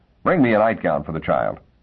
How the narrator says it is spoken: Miss Fellow said sharply

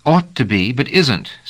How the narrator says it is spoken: said sharply

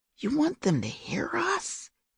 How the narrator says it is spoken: he whispered indignantly

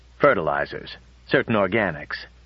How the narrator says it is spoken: said Bly stiffly

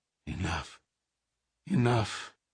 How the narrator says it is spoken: She began to mutter

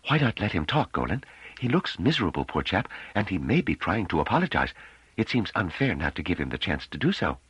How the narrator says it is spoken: He whispered

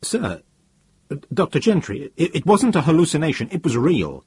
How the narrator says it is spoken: He said, with what was almost a stammer

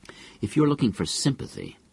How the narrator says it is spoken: said Calvin coldly

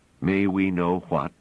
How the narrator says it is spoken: asked Pellerat

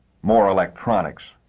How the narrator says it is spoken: snorted

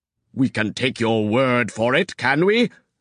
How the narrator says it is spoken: sneered Rune

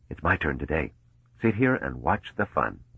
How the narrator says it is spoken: Mallow whispered

